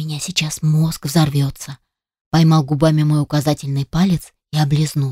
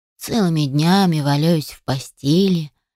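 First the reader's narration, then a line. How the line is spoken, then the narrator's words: Young man, sad. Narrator (Russian): печально произнес парень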